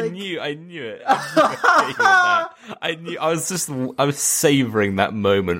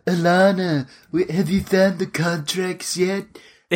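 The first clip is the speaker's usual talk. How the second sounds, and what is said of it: Imitates Stewie Griffin cartoon voice. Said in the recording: “his his weird accent couldn't place it... he sounds exactly like Stewie Griffin... He's just like, like”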